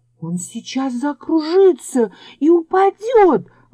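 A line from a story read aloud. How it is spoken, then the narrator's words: Exclaiming little fir tree. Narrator (Russian): воскликнула елочка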